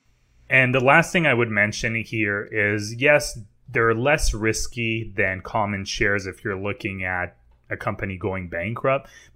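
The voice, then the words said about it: French accent. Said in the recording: “your cute little French accent ... When I'm tired, the accent comes out a bit more.”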